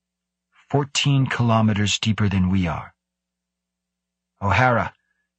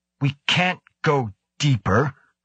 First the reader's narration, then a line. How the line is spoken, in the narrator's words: Carlston cried out